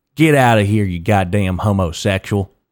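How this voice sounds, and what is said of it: Exaggerated country accent, old man. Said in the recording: “in the countryest accent of all fucking time ... some fucking old goddamn guy in a MAGA hat”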